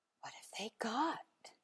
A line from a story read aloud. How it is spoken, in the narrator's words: Alice whispered